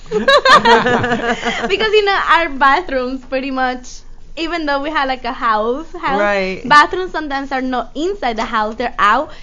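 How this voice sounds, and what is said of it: Noticeable foreign accent in English. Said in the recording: “What did you think with that accent? ... I love her accent. ... I love the way you talk.”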